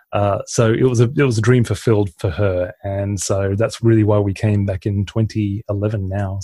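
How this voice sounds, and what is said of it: Mixed Australian and British accent. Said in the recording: “my accent is a little bit Australian, a little bit British, and something in between”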